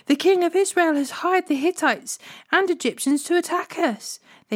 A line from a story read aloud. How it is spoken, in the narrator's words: they cried to one another